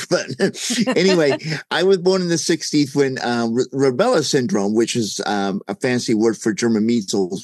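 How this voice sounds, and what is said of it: Noticeable accent. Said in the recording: “You probably could tell I have an accent.”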